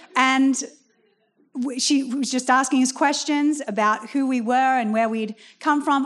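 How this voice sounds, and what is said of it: Australian accent. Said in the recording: “the Australian accent”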